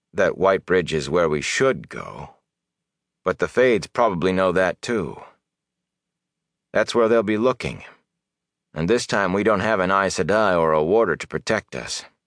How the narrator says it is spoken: said slowly

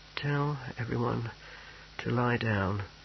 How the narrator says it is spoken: he muttered

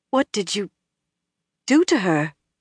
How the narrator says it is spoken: Elaine asked faintly

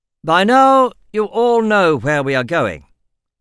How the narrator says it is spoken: he said loudly

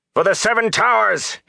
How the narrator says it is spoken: he shouted

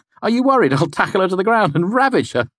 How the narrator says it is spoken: I laughed

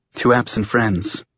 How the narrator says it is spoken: she whispered

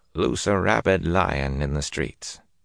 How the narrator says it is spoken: he murmured

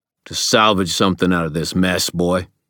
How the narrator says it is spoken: snapped

